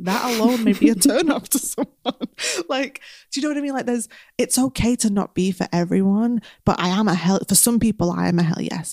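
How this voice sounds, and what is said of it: Fast speech, strong Northern English accent. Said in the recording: “I speak really fast and have a very strong Northern accent.”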